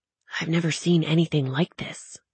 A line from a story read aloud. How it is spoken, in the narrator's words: she whispered